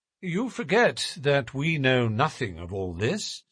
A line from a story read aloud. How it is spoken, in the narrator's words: said Holmes, quietly